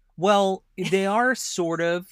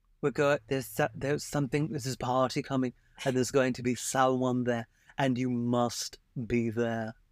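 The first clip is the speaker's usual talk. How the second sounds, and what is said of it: Put-on British transatlantic accent. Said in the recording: “I love how everyone's British ... It's a little bit of an accentuated transatlantic accent.”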